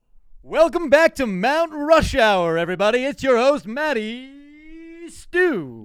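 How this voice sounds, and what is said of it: Confident radio host voice. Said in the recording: “Do you have a radio voice? ... You need to have a little more like swag. ... Do it like you believe it. ... have some confidence.”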